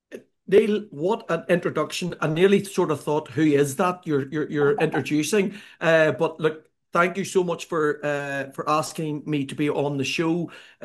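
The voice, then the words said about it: Irish accent. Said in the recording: “my Irish accent ... the Irish accent brings a nice level of sophistication”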